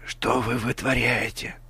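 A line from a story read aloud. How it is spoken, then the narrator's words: Whisper. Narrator (Russian): прошептал Картер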